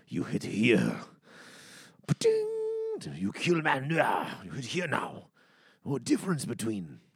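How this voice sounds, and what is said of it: Badly done put-on foreign accent. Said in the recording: “My accent's terrible. Probably very insulting.”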